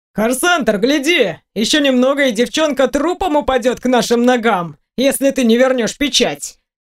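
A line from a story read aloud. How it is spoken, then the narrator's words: Shouted. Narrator (Russian): выкрикнул Вийон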